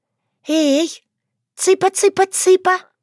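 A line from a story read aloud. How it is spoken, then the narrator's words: Squeaky rustling creature voice. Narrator (Russian): пропищала норуш на особом шуршащем наречии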